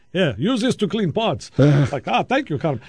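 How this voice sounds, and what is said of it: Put-on comedic foreign accent. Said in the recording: “I don't really have a German accent. That was my Boris accent.”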